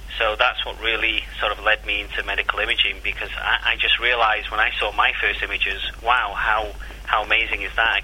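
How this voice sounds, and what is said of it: Mancunian English accent. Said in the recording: “you'll have to excuse my accent because, you know, I was born and bred in Salford in Manchester ... it's a good accent”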